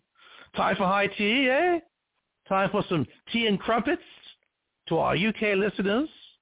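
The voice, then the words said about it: Poor imitation British accent. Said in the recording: “my terrible British accent”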